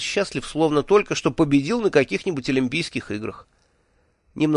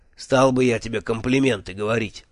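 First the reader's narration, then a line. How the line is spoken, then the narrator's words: Grumbling. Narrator (Russian): проворчал Джуфин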